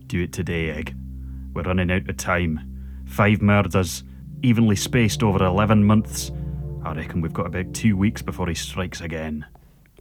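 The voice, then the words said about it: Gruff put-on Scottish accent. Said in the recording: “that gruff Scottish detective accent ... it doesn't come as naturally as I thought it might ... it sounds very detective-y”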